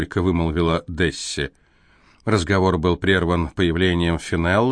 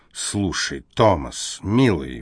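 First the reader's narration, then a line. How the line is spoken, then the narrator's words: Exclaiming. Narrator (Russian): воскликнула его сестра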